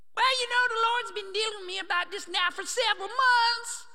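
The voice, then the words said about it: Put-on Southern accent. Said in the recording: “I'm doing my southern accent”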